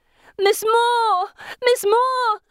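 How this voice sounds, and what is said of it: Shouting until voice is raw. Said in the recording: “I shout, till my voice is raw, till I've no voice left ... I croak”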